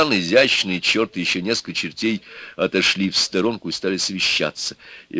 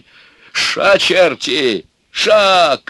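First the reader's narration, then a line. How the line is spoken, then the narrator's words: Shouted. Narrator (Russian): крикнул Иван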